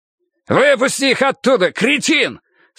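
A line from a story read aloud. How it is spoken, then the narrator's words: Shouting. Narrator (Russian): снова закричал Хардвик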